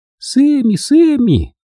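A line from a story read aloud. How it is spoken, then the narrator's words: Joyful children shouting. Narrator (Russian): радостно закричали дети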